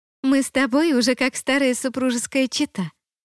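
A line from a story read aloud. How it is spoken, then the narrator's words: Giggling woman. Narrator (Russian): хихикнула она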